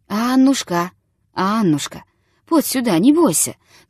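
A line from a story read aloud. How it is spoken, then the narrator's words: Gentle call, old man. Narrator (Russian): кликнул старик ласково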